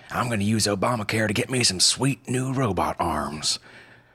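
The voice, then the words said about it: Put-on southern accent. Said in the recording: “I don't know why I said that in a southern accent.”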